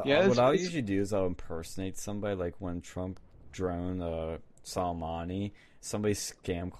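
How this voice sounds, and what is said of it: Usual voice. Nothing is said of it.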